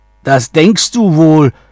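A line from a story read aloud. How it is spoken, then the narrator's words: Shouting troll. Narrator (German): schrie da der Troll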